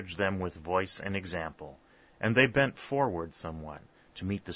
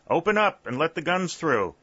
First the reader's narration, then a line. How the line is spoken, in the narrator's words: someone cried suddenly